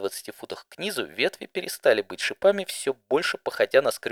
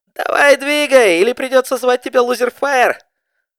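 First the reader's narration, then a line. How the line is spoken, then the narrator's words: Giggling. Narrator (Russian): Хихикая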